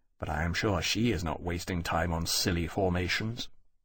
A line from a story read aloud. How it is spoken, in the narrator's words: adding under his breath